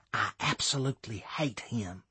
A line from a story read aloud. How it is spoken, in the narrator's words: Savannah whispered